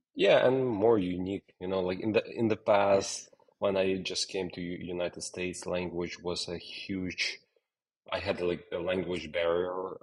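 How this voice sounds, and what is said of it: Non-American, Ukrainian-accented English. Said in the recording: “your accent is still not American yet ... I want to keep my accent”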